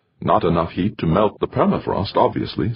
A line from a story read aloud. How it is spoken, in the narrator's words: said Rosenberg